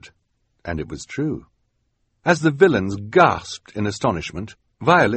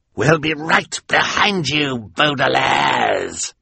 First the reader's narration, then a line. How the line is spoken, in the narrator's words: Count Olaf roared